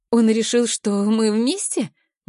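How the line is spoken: Uncertain question. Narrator (Russian): Неуверенно интересуюсь я

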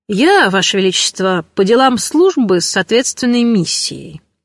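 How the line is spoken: Dry official tone. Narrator (Russian): сухим официальным тоном заявил Фелик

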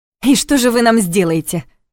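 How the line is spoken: Sudden snapping retort. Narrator (Russian): внезапно огрызнулась та

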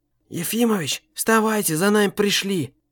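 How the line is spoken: Quiet hissing. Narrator (Russian): тихо шипел адвокат

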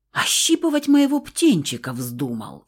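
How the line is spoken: Angry hiss. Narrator (Russian): Феникс зашипел

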